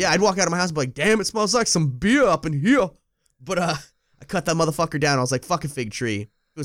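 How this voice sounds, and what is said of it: Usual voice. Nothing is said of it.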